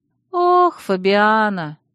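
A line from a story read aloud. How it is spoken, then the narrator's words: Sad drawl. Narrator (Russian): грустно протянула Алекс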